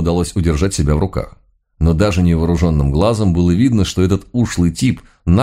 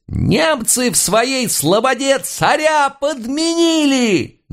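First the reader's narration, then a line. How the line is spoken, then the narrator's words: Sudden loud high-pitched howl. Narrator (Russian): Неожиданно громко, тонким голоском взвыл дьяк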